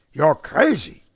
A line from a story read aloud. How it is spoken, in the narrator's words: Smalkovich cried